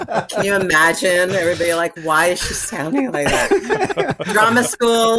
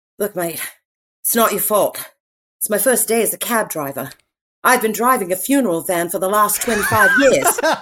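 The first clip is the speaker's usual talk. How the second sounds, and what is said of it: British accent. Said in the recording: “are you telling me you could have been doing a British accent for this entire interview?”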